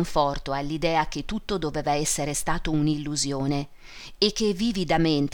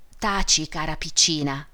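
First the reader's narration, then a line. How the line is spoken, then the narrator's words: Mother whispering. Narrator (Italian): bisbigliò la madre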